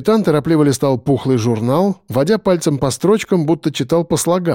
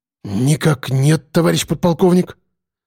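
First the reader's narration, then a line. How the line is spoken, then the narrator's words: Captain exhales. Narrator (Russian): выдохнул капитан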